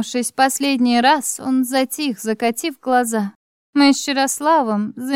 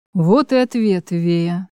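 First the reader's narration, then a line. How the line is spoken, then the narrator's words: Husband's muffled voice. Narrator (Russian): глухо произнес мой муж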